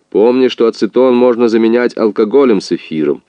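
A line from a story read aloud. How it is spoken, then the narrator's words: Loud prompt, distant father. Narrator (Russian): Из другой комнаты ему громко подсказывал отец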